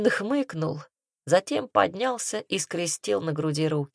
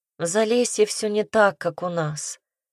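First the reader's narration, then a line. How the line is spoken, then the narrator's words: Sighing. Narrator (Russian): вздохнула она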